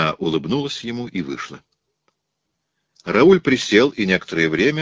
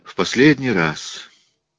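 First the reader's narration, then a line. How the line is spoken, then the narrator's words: Sigh, grim satisfaction. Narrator (Russian): вздохнула Элиза с мрачным удовлетворением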